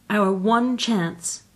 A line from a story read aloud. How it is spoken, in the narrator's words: cried Anthea dramatically